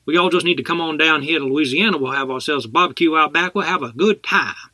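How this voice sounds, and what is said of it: Rough put-on New Orleans accent. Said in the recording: “can you do a New Orleans accent? ... I can't do Cajun ... I just need something that resembles ... that's good enough”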